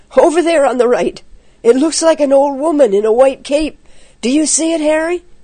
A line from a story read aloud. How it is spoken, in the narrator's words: he cried